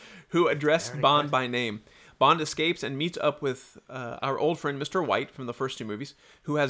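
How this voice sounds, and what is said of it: Usual voice. Nothing is said of it.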